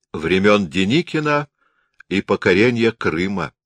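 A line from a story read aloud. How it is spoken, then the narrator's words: Smirking. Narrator (Russian): усмехнулся Берг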